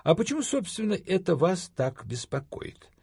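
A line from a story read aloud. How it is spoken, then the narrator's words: Innocent inquiry. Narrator (Russian): осведомился я невинным тоном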